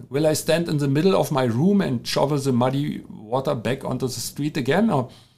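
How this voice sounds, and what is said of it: German-accented English. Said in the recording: “with my German accent. Yes, I know, but it is as it is.”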